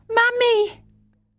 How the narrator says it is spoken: the child awoke and cried out

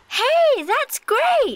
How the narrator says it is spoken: shouts Stacy

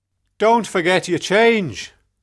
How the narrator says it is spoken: shouted the taxi driver

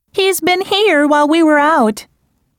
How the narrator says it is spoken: exclaimed Marianne

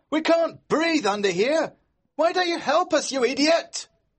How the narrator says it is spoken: we heard George shout

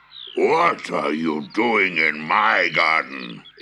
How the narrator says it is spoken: roared

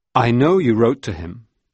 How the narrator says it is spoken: told her calmly

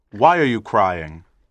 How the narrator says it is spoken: coldly asked

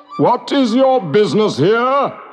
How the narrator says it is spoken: boomed

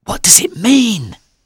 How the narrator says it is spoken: I whispered

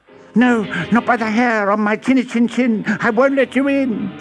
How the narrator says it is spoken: squealed the third little pig

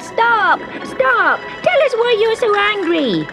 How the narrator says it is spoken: the little wooden horse shouted

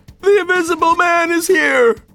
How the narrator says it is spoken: Some even screamed as they ran

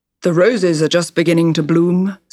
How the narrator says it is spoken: said the king

